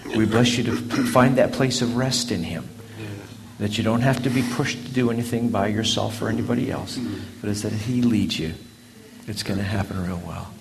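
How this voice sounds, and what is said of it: South African accent. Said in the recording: “accent. I was born in Cape Town, South Africa. He talks just like my mom and dad.”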